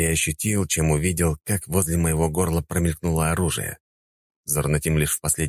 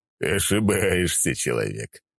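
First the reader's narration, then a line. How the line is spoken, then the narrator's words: Snort. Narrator (Russian): хмыкнул Зурнатим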